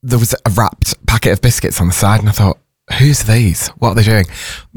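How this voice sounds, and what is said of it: Hoarse, throaty voice. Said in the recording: “If I'm sounding like I'm clearing my throat ... I'm feeling a bit hoarse”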